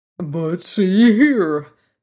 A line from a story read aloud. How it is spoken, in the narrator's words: said Jack Pumpkinhead with a gasp